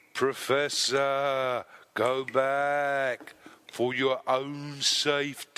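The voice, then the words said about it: Spooky ghostly voice. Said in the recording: “doing that stupid ghostly voice”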